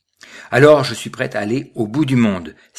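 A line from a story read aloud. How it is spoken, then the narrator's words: Exclaiming. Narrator (French): s'écria Cyprien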